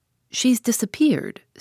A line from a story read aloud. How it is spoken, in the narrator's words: said Julius